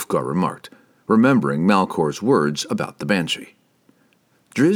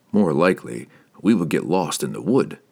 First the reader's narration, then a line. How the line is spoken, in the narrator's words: Driz replied